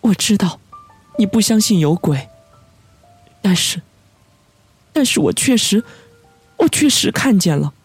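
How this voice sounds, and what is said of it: Trembling, frightened, panicked voice. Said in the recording (Chinese): “肩头颤抖着，用充满惊惧而恐慌的声音说”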